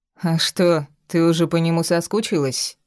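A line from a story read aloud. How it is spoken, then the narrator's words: Sarcastic young man. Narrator (Russian): язвительно ответил парень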